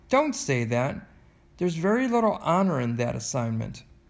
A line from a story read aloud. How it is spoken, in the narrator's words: Mother spoke very sharply